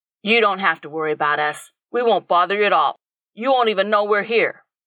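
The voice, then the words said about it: Friendly, warm voice. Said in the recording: “in a friendly voice”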